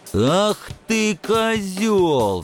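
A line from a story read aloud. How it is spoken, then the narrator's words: Young man roaring. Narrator (Russian): взревел парень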